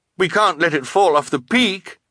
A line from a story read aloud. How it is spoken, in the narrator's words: Klaus cried